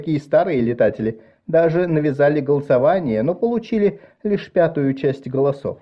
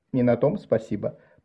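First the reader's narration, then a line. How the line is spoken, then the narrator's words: Muttered. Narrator (Russian): пробормотала Марис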